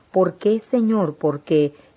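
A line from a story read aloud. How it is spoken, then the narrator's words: Exclamation. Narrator (Spanish): Yo exclamé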